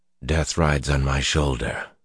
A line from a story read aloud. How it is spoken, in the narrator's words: Luz Theron muttered